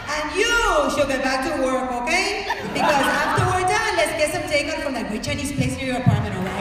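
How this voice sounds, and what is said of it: Miami Cuban accent. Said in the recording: “I'm gonna do a Miami Cuban accent”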